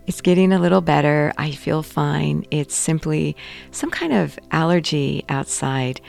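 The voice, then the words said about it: Slightly hoarse voice. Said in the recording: “my voice is still a little hoarse. ... it's causing my voice to be a little hoarse”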